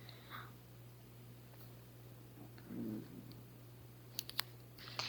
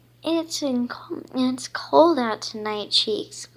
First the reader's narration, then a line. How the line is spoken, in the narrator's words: she exclaimed